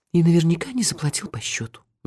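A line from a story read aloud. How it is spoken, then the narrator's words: Sighing. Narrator (Russian): вздохнула Техи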